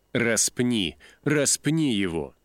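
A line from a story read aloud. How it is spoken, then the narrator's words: Shouting crowd. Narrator (Russian): закричали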